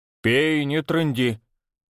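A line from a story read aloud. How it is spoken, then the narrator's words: Grumbling mutter. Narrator (Russian): Буркнула она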